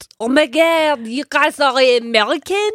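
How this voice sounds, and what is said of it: Put-on French accent. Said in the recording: “I love a French accent ... How's my accent?”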